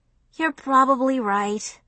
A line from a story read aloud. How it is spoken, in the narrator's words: Ben sighed